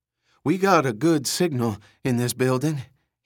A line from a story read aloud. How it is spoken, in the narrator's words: he panted